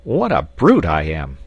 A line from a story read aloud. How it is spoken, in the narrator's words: he exclaimed